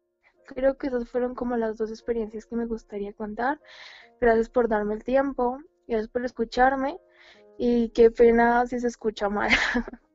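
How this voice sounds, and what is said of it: Colombian Spanish accent. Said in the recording (Spanish): “les gustaba tu acento colombiano”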